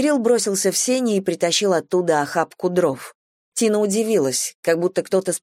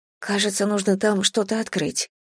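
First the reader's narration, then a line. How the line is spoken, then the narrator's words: Low mutter. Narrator (Russian): пробормотала Тина вполголоса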